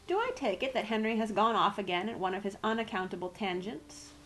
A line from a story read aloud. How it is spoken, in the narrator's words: asked Uncle Parker